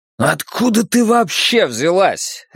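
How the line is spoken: Desperate exclamation. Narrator (Russian): отчаянно воскликнул Вуко

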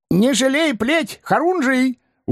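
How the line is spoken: Admiring shout. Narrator (Russian): успел восхищенно прикрикнуть вслед бравый бес

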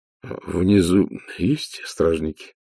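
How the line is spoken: Strained words. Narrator (Russian): выдавил из себя Ваймс

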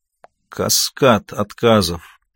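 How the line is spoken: Muttered. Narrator (Russian): пробормотал он

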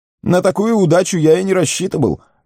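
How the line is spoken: Spontaneous exclamation. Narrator (Russian): воскликнул непосредственный Пиппин

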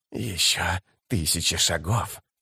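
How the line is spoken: Hissed. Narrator (Russian): прошипел он

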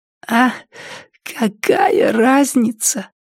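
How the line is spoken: Hoarse rasp. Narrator (Russian): прохрипела Триша

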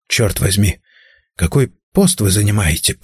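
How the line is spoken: Whisper. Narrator (Russian): прошептал я

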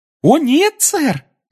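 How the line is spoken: Joyful, elf. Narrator (Russian): радостно сообщил эльф

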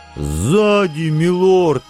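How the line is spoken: Sudden howling chorus. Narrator (Russian): Неожиданно хором взвыли Лия и Жан

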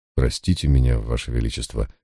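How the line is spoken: Quiet speech. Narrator (Russian): тихо сказал я

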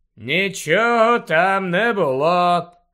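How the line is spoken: Bored voice. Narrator (Ukrainian): знудженим голосом відповів Снейп

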